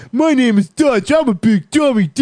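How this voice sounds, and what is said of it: Goofy dumb-sounding voice. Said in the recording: “a goofy voice impersonating someone who's dumb ... let me show you my dumb voice ... Oh, that's pretty good.”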